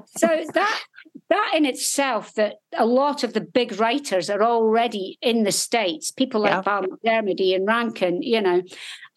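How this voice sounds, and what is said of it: Scottish accent. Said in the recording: “everybody's either Scottish or Irish. So when you go out there and they hear your accent, they're like, oh, my goodness”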